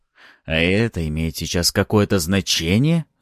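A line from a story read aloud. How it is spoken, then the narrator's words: Angry hiss. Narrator (Russian): зло прошипел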